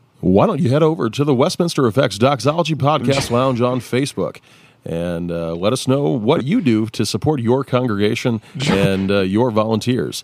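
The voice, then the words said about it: Announcer-style radio voice. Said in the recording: “I could put my radio voice on. You want me to put my radio voice on?”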